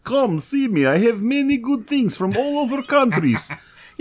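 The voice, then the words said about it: Cheesy 80s movie Russian accent. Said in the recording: “Spies 80s like Russian, Russian accent ... He's an extra from a bad 80s movie ... Why am I doing the Russian accent?”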